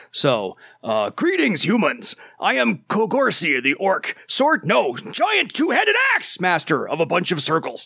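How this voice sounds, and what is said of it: Funny orc character voice. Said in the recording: “Josh allowed me to do this in a very funny voice ... I am going to absolutely butcher the voice you have in your head for your character”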